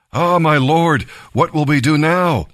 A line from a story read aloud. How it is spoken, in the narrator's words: he cried out to Elisha